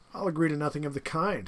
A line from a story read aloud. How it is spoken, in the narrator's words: said Rainsford